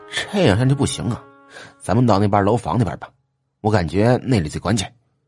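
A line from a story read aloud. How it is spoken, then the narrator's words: Hushed voice. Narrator (Chinese): 周凤臣压低声音说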